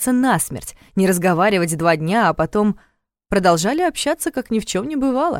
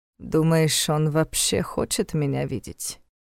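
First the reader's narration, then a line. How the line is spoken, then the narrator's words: Very quiet, to himself. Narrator (Russian): спросил Войтах так тихо, как будто говорил самим собой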